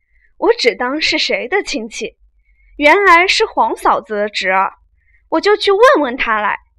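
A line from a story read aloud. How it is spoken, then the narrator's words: Sneering. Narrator (Chinese): 宝玉冷笑道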